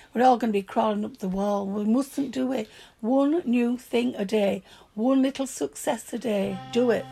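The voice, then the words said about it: Broad Yorkshire accent. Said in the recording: “My broad Yorkshire accent. ... Everyone loves a Yorkshire accent anyway. It's a warming sound, apparently.”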